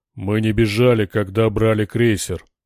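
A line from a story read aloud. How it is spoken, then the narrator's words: Growled. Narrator (Russian): прорычал богатырь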